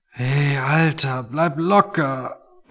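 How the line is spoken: Quiet, strained voice. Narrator (German): meinte Tony und sprach leise, weil jedes Geräusch einfach noch zu viel für ihn war

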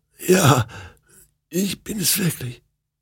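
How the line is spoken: Hoarse croak. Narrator (German): krächzte sie heiser

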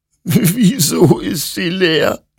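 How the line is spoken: Sobbing. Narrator (German): schluchzte Hector

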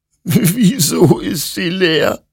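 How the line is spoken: Sobbing. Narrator (German): schluchzte Hector

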